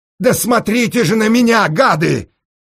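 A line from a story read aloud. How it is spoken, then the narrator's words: Tearful shouting. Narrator (Russian): плачущим голосом закричал Сенька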